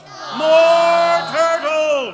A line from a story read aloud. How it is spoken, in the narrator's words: He bellowed and brayed